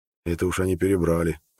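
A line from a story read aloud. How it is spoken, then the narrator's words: Mumble. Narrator (Russian): пробормотал Хеверат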